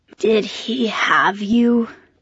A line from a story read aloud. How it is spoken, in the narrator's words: she asked in a low, raspy voice